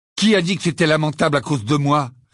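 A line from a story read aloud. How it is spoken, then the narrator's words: Curt retort. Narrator (French): répliqua sèchement Ron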